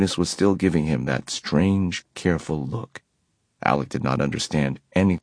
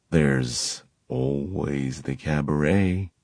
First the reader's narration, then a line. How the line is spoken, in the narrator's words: Magnus murmured